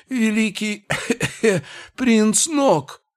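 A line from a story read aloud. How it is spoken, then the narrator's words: Hoarse messenger. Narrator (Russian): хрипел посланец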